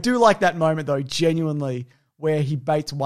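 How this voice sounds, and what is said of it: Usual voice. Nothing is said of it.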